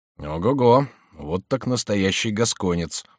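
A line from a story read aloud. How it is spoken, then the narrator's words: Muttered. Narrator (Russian): пробормотал Робер Брике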